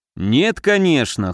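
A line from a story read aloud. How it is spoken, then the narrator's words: Snorted. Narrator (Russian): хмыкнул Муром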